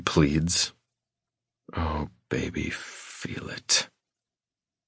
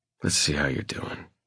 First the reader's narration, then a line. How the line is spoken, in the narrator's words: I murmur